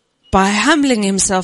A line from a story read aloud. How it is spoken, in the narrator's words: he cried out